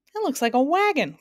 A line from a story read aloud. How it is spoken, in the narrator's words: cried Milo excitedly